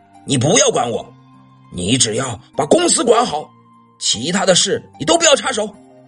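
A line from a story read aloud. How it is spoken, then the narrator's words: Rough angry roar. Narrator (Chinese): 欧阳震天粗暴的吼道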